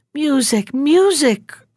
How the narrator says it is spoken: cried the emperor

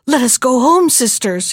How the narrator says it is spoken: he cried

